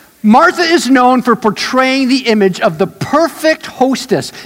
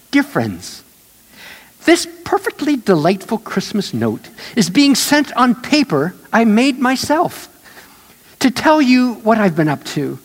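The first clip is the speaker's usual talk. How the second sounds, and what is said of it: Martha Stewart impression. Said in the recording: “I'll do my best Martha voice.”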